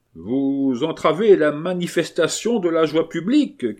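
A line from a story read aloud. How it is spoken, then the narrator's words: Shouting, echoing. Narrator (French): cria à son tour Carmagnol, faisant écho à Gibassier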